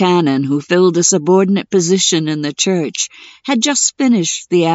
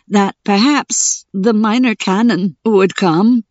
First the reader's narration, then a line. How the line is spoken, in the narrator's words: said one of the laborers, his voice shaking so that his words could hardly be understood